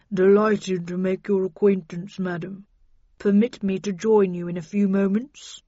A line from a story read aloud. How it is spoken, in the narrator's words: the horse brayed and replied in a deep voice